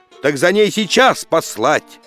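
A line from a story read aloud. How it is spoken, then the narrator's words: Angry exclamation. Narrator (Russian): восклицает царь Никита, брови сдвинувши сердито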